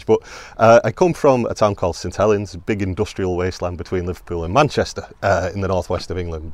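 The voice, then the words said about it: Hybrid English-Irish accent. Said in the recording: “as you can tell with the accent, it's a bit of a hybrid one after 21 years in Ireland”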